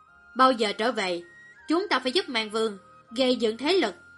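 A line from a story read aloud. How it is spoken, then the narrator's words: Cold. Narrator (Vietnamese): Viên Liệt lạnh lùng nói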